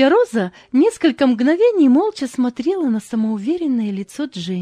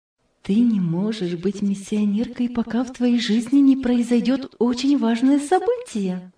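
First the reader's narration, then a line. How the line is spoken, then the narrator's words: Quiet. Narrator (Russian): тихо сказала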